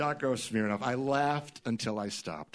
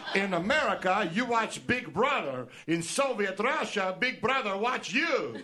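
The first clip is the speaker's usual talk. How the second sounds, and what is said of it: Yakov Smirnoff Russian accent impression. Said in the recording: “a Russian accent as, oh, let's say Yakov Smirnoff ... Yakov Smirnoff”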